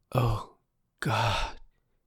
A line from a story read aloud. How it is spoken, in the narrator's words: she whispered